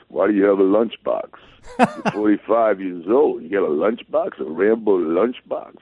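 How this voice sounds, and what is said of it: Good Sylvester Stallone impression. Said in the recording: “That's actually a really good impression, too. ... other than Sly Stallone?”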